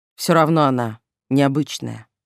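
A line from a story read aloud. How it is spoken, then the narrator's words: Sudden grumbling. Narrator (Russian): неожиданно разворчался Айвард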